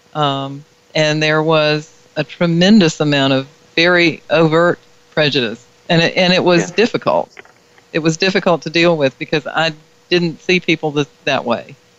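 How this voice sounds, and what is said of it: Southern American accent. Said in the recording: “as I'm sure you can tell by my accent, I grew up in the South”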